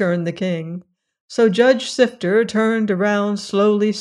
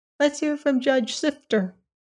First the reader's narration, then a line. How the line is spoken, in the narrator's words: a big kitchen fork pricked up its ears and said in a tiny voice